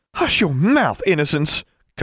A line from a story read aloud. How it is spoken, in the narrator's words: Constance snapped at her